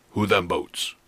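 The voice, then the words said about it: Put-on Native American accent. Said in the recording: “That's an Indian accent.”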